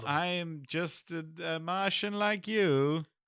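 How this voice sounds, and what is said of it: Put-on Martian character voice. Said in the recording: “That's very racist. I don't know why you're doing that impression.”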